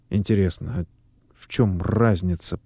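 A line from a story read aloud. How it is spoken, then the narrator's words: Muttered. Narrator (Russian): пробормотал Давыдов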